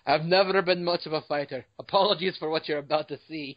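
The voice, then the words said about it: Put-on Scottish accent. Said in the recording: “What the hell is that, William Wallace? What is that William Wallace impersonation you just did? ... you should really stop with the British accent. ... It's not British. It was Scottish. ... All the Scottish came out of me.”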